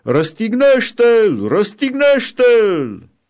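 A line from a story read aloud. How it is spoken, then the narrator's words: Crowd shouting. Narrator (Romanian): preoții cei mai de seamă și aprozii, au început să strige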